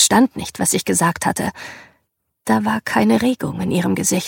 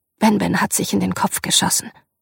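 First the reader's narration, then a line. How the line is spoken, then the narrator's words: Forced calm. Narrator (German): sagte ich und versuchte, es ruhig zu sagen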